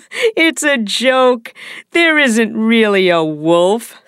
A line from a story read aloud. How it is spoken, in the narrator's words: said the boy, laughing